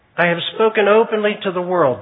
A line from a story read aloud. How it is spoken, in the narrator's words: Jesus replied